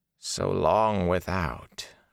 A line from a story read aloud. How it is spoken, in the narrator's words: Agenor said softly